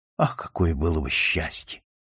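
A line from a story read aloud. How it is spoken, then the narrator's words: Tearful whisper. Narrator (Russian): прошептала она, и у нее хлынули слезы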